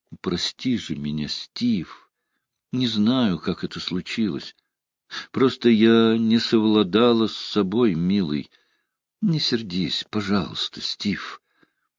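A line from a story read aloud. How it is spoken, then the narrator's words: Quiet pleading woman. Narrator (Russian): Она тихо проговорила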